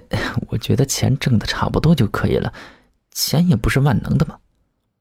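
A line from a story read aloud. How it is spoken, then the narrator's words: Quiet, reluctant arguing. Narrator (Chinese): 苏明嘿嘿勉强小声地争执道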